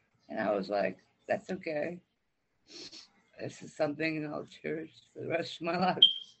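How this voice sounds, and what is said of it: Emotional voice. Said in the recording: “you seem a little emotional right now about it. ... Pretty emotional.”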